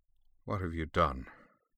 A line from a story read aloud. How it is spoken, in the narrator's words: he said, softly, sadly